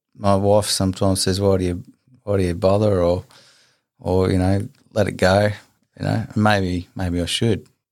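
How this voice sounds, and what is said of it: Weary, tired-sounding voice. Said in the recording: “you sound a bit weary and you sound tired”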